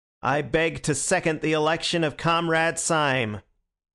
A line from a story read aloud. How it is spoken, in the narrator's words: repeating in a high American monotone